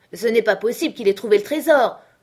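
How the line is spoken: Old man shouting. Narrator (French): nous cria le vieux Morgan

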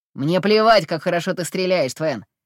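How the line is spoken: Growling enemy. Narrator (Russian): прорычал противник

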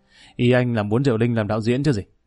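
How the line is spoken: Laughing. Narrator (Vietnamese): Ông Cường bật cười

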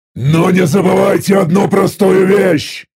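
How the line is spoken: Angry growl. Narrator (Russian): Зло прорычал я

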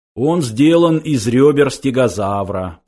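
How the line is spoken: Explaining. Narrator (Russian): пояснил Сларти Бартфаст

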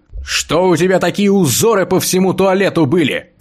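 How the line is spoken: Shout. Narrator (Russian): прокричал я

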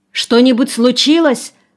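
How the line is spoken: Alarmed exclamation. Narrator (Russian): воскликнул он

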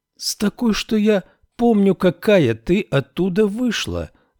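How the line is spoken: Exclaimed. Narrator (Russian): воскликнула Феба

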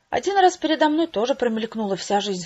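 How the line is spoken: Sighing. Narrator (Russian): вздохнул

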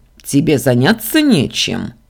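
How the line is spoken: Growled. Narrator (Russian): рыкнул Ардан

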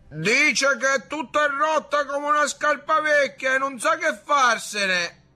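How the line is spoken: Shouting from afar. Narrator (Italian): gridò da lontano

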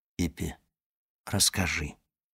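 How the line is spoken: Whisper. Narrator (Russian): шепнул

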